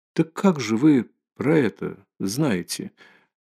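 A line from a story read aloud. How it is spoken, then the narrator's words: Barely audible question after silence. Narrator (Russian): опять чуть слышно спросила, и опять почти после минутного молчания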